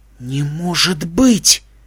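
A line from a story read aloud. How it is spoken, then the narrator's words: Shocked whisper. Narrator (Russian): потрясенно прошептала Твайлайт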